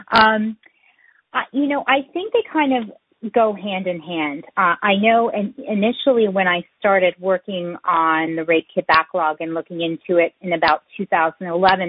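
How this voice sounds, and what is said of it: Choked-up, emotional voice. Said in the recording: “I'm touched, a little choked up here.”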